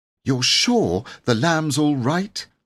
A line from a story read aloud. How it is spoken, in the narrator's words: asked Jane anxiously